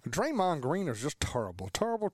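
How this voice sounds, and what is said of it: Charles Barkley impression sounding like Shaq. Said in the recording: “do an impression of him ... Charles Barkley ... that sounded ... more ... Like Shaq. That was good Shaq.”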